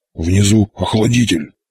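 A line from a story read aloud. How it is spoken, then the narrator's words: Hoarse wheeze. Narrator (Russian): прохрипел Боров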